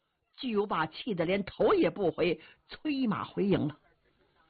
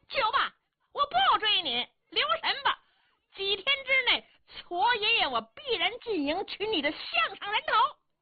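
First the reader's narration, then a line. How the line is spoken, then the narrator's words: Happy loud shouting. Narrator (Chinese): 智军章高兴了，冲着巨无霸高声嚷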